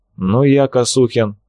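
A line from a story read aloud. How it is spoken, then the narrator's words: Calm, mocking. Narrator (Russian): голос прозвучал спокойно, с явной насмешкой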